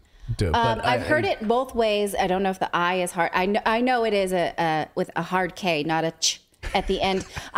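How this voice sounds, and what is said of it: Anglo English accent. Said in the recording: “my Anglo accent”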